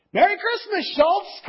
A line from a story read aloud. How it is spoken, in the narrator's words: cried Mr